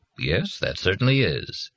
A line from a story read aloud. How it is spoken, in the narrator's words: Kindly Dad said